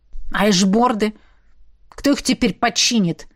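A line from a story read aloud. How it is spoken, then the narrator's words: Disappointed grumble. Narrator (Russian): проворчал Квазар, явно разочарованный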